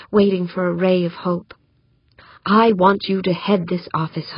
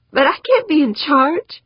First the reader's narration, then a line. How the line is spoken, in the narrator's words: squeaked